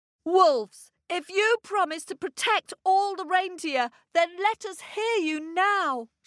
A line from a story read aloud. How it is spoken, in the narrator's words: shouted the boy